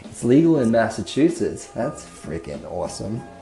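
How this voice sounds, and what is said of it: Bad put-on Massachusetts accent. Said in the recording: “That was a bad impression. ... If you're from Massachusetts, I apologize.”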